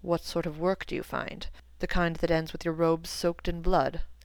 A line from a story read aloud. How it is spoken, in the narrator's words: asked Severus